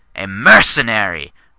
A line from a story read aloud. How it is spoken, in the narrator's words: Valentina spat